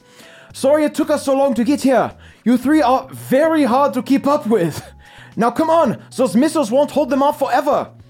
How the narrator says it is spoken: through a loudspeaker, you hear Keith shout

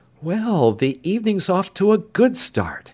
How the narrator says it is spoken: Sandy said with a happy laugh

